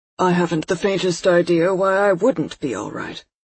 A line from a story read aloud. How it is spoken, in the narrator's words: coolly